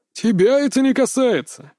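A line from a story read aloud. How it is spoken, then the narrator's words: Sudden laugh. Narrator (Russian): рассмеялся вдруг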